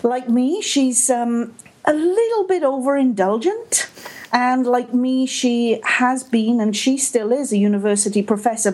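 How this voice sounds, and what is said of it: Welsh Canadian accent. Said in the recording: “I am Welsh Canadian, as is Kate. And that means that when you hear my voice and my accent, this is pretty much what Kate would sound like”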